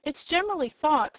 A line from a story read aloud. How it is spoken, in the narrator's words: he resumed, in an annoyed tone